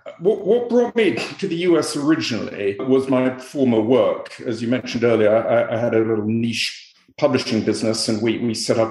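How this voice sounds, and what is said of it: Non-American foreign accent. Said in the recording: “judging by your accent and by some of the points on your resume, you're not originally from around these parts”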